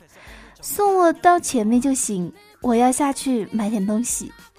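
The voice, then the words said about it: Shy, bashful sweet voice. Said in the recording (Chinese): “用三分羞答答、七分微灿灿的声音说”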